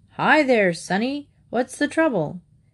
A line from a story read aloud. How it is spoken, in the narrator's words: Watkins boomed out